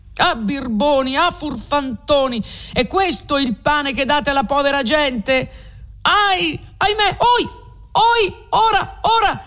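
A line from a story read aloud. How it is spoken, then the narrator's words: Shouting from below. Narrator (Italian): s'urlava di giù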